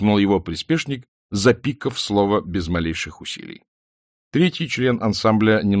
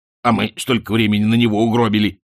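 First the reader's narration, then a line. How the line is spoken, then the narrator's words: Grumbling. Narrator (Russian): проворчал второй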